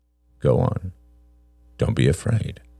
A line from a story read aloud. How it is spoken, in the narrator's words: said Peter softly